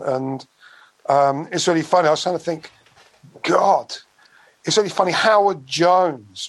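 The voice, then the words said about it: Buckinghamshire English accent. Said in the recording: “My accent's Bucks. People think I'm from East London, but it's a complete Bucks accent.”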